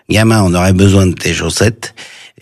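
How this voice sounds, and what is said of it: Imitating Michel Audiard's accent. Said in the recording (French): “Vous prenez bien l'accent.”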